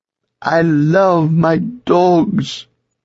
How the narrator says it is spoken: Signora wailed

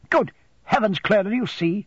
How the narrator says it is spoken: exclaimed Miss Murdstone

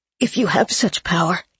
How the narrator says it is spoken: Gabe whispered

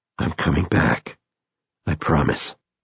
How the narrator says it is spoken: To himself, as much as to the ape, he whispers

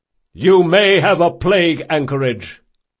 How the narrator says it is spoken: shouted the Komori officer

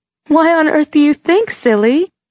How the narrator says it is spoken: she went on, her voice as sugary and bubbly as soda

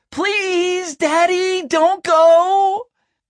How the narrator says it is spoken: Colton screaming

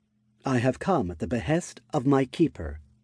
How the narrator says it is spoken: Tsubaki said calmly

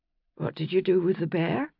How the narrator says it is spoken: she mumbled into his shoulder

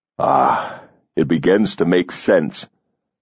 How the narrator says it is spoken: he murmured

